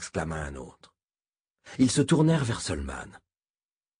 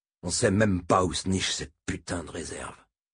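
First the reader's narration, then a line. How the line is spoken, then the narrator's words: Grumbled. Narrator (French): grommela Moram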